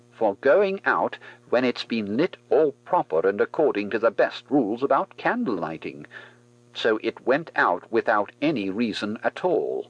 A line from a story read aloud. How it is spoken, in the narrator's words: decided firmly